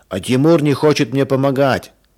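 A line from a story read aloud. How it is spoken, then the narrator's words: Shouting. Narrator (Russian): закричал Женя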